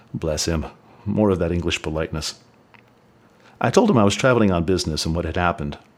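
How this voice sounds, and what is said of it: Southern United States accent. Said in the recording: “You have a bit of an accent. ... A bit of a southern United States redneck who's never been to England accent.”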